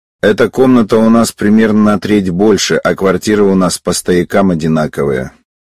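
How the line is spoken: Calm detached. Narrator (Russian): спокойно, даже как-то отстраненно, сообщил

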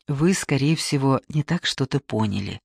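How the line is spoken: Soft. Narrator (Russian): мягко сказал Боткин

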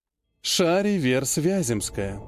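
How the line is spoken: Smiling, melodious voice. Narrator (Russian): с улыбкой, красивым певучим голосом произнесла пожирающая мать

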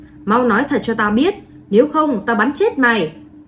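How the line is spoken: Angry roar. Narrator (Vietnamese): Chiến sĩ kia tức giận gầm lên

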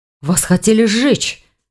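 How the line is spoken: Exclaimed. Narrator (Russian): воскликнул Ивар

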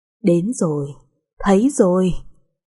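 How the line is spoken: Laughing loudly. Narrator (Vietnamese): cô ta lại càng cười to hơn

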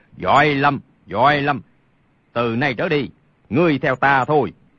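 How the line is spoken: Hearty booming laughter. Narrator (Vietnamese): Thiết Mộc Chân hô hô cười lớn, nói

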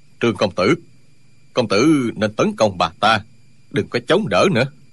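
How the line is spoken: Lowered voice. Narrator (Vietnamese): Dương Tiêu hạ giọng nói

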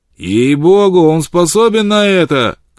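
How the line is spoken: Shout from crowd. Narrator (Russian): крикнул кто-то в толпе

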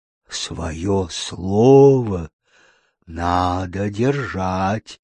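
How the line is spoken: Breathed out. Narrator (Russian): выдохнул Глинкомок

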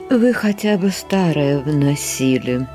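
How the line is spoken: Elderly woman, tactful sigh. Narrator (Russian): седая аристократка тактично вздохнула, но все же, не удержавшись, сказала

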